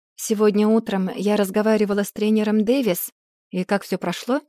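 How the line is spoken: Plain. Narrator (Russian): спросил он

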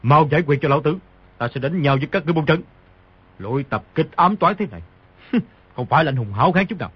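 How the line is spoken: Angry. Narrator (Vietnamese): Sấu Đầu Đà tức giận nói

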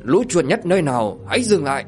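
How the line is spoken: Shout. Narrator (Vietnamese): Tiếng quát

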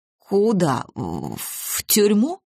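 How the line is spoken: Faltering babble. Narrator (Russian): пролепетал Немировский

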